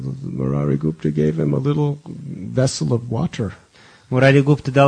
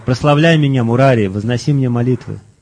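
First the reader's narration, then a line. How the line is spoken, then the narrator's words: Divine shout. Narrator (Russian): Господь закричал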